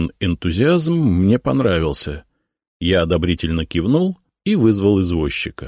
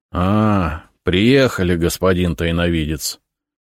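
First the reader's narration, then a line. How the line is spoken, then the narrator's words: Grumble. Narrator (Russian): проворчал он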